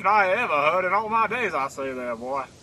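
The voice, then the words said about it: Cartoon rooster Southern drawl impression. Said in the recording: “worst Bill Clinton impression ... not knowing the difference between Bill Clinton and Foghorn Leghorn ... that chicken sounds like the president”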